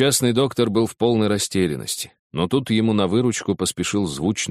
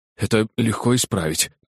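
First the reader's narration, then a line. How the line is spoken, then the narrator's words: Frightened muttering. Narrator (Russian): пробормотал перепуганный доктор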